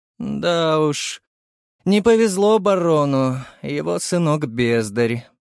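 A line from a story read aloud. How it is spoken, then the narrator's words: Sad man. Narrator (Russian): печально заявил мужчина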